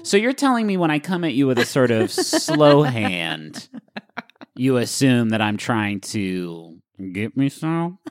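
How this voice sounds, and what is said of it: Slow, low, seductive voice with vocal fry. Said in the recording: “voice for me seems slightly seductive ... the slowness and the register you're in right now ... The vocal fry is kind of suggestive”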